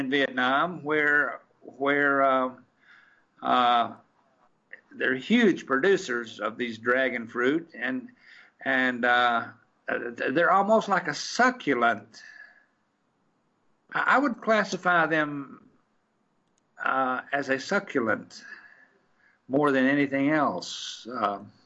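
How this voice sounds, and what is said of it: Southern US accent, Knoxville. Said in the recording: “You may be able to detect in my accent that I'm an old Knoxville boy. ... I thought I heard some south of the behind the corn pone curtain in your voice.”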